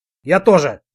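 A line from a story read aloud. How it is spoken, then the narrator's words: Sharp. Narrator (Russian): резко сказал я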